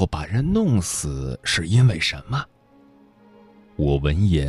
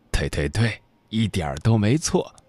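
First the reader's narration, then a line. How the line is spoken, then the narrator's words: Chuckling. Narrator (Chinese): 他就嘿嘿笑着说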